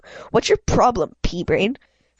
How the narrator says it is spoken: She snapped

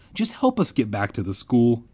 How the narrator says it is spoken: I pleaded

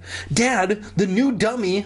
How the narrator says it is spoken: I cried, still rubbing my aching jaw

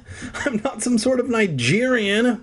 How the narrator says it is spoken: Alex cried

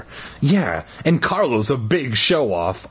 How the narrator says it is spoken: I exclaimed

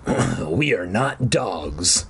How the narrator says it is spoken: the voice growled

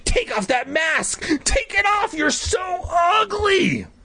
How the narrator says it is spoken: started to scream

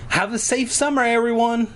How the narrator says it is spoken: she called out

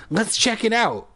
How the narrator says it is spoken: I cried

